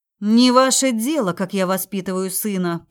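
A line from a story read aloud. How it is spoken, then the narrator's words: Growled reply. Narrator (Russian): прорычала в ответ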